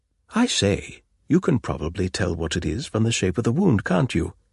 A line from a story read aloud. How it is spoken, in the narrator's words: he asked eagerly